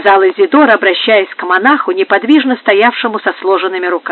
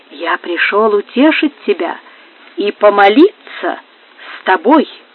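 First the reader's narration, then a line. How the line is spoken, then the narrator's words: Quiet. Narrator (Russian): тихо отвечал Франциско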